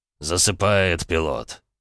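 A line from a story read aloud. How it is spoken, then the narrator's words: Low booming drone. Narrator (Russian): прогудел Инвиктус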